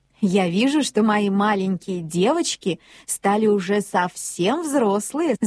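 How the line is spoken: Mother laughing. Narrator (Russian): засмеялась мама

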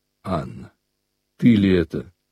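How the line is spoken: Quiet, restrained. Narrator (Russian): сказал Алексей Александрович тихо, сделав усилие над собою

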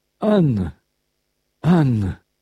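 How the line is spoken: Trembling voice. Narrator (Russian): говорил он дрожащим голосом

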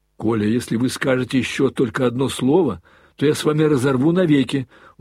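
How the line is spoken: Commanding shout. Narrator (Russian): властно крикнул Алеша

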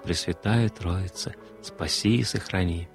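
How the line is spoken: Whispered prayer. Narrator (Russian): шептала

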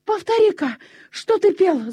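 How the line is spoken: Breathless shout. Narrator (Russian): закричал он, задыхаясь

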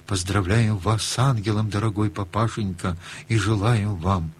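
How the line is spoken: Whispered, children. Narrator (Russian): мы шепотком сказали

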